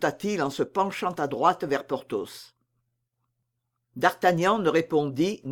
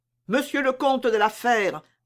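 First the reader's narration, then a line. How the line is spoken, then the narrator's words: Exclaimed. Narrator (French): s'écria Mordaunt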